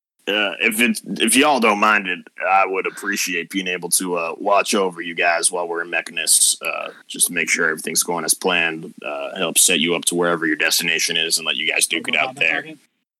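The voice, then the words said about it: Deep southern accent character voice. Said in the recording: “use the deeper southern accent”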